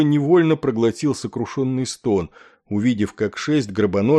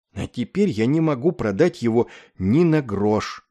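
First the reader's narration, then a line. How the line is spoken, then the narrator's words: Groaning after a pause. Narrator (Russian): простонал, чуть помедлив он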